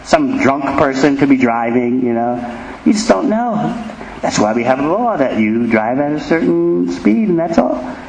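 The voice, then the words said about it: American accent. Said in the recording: “he heard my accent, and he realized, you're from overseas. Americans have very distinctive accents.”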